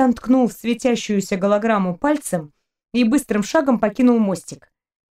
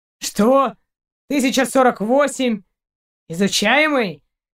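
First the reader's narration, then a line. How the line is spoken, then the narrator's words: Indignant growl. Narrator (Russian): Шейн возмущенно зарычал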